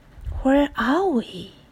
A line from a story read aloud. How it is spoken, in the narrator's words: whispered Annie behind him